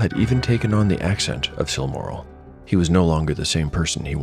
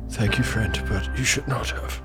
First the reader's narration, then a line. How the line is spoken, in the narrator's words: replied in a hoarse whisper